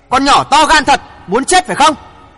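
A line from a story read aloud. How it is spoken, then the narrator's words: Angry shout. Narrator (Vietnamese): nổi giận hét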